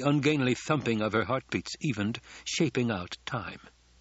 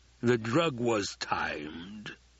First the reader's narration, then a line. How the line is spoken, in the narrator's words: he rumbled